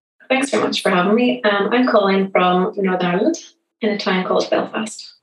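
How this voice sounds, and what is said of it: Irish accent. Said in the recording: “I can hear your accent ... I think yours is much nicer than mine ... everybody loves the Irish accent”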